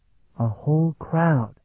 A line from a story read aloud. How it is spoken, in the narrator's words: Talon whispered back